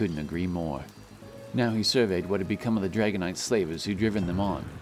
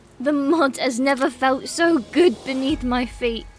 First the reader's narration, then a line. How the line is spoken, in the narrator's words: she cried, her smile bigger than Turm had ever seen it